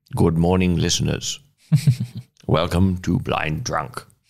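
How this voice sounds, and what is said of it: Middling Winston Churchill impression. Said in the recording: “I will fall into my Churchill voice ... my not so good, not so bad Churchill imitation”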